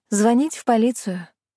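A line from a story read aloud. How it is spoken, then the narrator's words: Sigh. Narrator (Russian): вздохнула я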